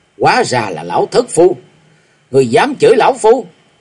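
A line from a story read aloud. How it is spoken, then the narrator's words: Shouting angrily. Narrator (Vietnamese): Bạch Hàm Như lên tiếng quát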